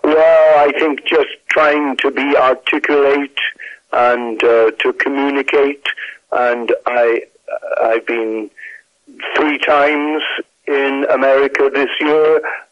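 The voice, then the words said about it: British accent. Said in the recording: “how did you get a British accent”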